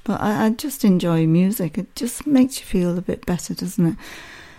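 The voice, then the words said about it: Worn-out, hoarse voice. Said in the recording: “my voice has gone singing too much”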